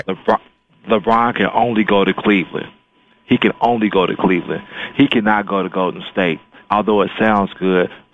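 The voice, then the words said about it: Polished radio announcer voice. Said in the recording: “I hear your radio voice, man. Very nice. ... Oh, yeah. I had to bring it tonight”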